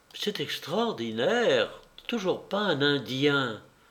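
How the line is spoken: Murmuring. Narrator (French): murmura Marie-Thérèse

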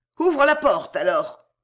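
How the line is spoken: Cold. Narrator (French): dit froidement Fausta

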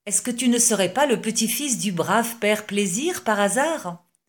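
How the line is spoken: Exclaiming. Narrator (French): s'écria Baudouin

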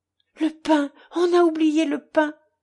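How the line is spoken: Sudden frightened cry. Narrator (French): s'écria-t-il tout à coup avec effroi

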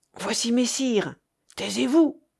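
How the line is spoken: Low voice. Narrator (French): dit tout bas Gauvain

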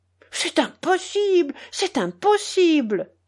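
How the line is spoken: Exclaimed. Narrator (French): s'écria Joseph

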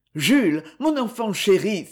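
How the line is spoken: Eager, reassuring exclamation. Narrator (French): s'écria le comte, incapable de résister plus longtemps au désir de le rassurer

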